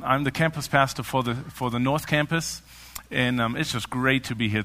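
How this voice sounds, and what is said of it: Speaks with a noticeable foreign accent. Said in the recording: “this guy is with this accent up here”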